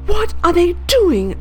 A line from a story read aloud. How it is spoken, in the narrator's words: I cried